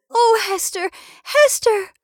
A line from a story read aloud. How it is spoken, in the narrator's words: cried Miss Rosamond